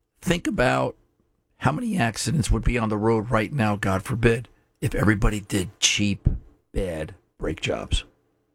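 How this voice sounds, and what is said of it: Voice nearly gone, hoarse. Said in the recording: “lost my voice”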